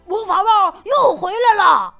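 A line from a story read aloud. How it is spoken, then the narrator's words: Booming loud shout. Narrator (Chinese): 大嗓门的喊叫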